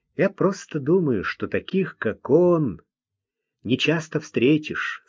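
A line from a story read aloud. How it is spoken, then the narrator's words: Plain. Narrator (Russian): сказал он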